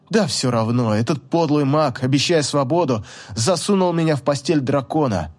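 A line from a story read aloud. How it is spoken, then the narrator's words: Through gritted teeth. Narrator (Russian): Я процедила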